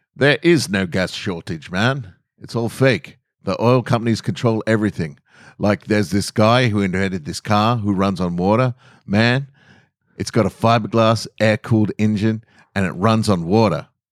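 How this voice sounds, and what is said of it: Voice impersonating the character Hyde. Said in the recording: “I'll do the voice ... Hyde says”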